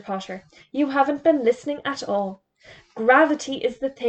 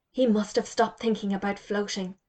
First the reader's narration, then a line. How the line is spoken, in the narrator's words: whispered Jody